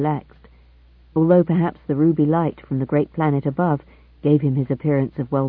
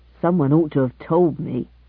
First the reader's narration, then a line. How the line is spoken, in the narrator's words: he grumbled